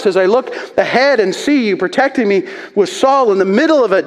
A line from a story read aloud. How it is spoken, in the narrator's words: David shouts